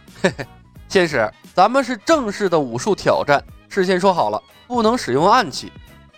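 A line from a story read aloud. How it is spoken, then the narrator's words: Laughing. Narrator (Chinese): 张龙笑道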